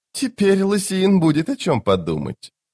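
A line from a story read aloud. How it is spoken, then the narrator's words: Giggling. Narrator (Russian): Он снова хихикнул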